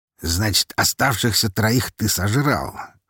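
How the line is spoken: Smirking grunt. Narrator (Russian): хмыкнул он

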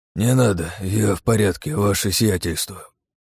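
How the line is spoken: Groaning. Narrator (Russian): Простонал

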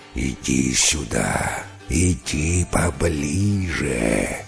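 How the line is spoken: Hiss. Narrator (Russian): прошипел змей

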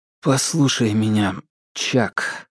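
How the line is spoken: Restrained, suppressing trembling voice. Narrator (Russian): Томас замолчал, пытаясь успокоиться и не выдать дрожащим голосом бушевавших в нем эмоций

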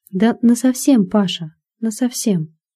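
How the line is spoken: Calm homely woman. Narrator (Russian): А жена его спокойно так, по-домашнему отвечает

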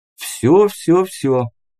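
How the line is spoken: Conciliatory, laughing. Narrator (Russian): примирительно вскинув руки и засмеявшись, сказал я

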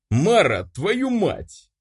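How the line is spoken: Angry exhale. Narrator (Russian): зло выдохнул я

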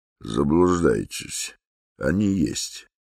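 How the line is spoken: Quiet. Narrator (Russian): сказал Иван Дмитрич негромко

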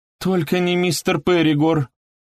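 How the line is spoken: Almost pleading. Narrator (Russian): почти взмолилась она

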